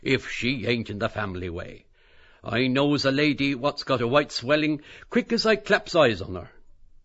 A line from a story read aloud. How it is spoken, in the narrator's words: cried Costello